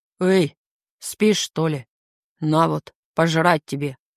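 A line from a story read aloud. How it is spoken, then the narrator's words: Deep bass voice. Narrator (Russian): Пробасил Соломон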